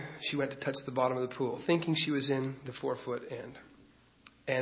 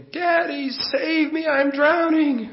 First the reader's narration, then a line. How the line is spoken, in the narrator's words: she screamed